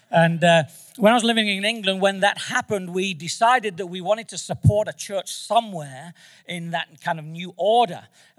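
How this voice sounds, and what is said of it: Manchester English accent. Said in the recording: “I'm from Manchester, England, by the way. So you've not got an Australian accent”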